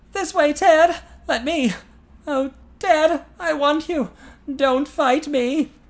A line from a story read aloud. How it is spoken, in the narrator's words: From far away Eileen's tortured gasp